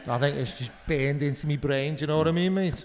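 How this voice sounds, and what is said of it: Put-on Liverpool Scouse accent. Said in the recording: “doing a Liverpool accent ... I can do it ... It's just such an expressive accent.”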